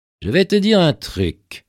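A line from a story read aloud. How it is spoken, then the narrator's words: Plain. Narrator (French): lui répondit Johnny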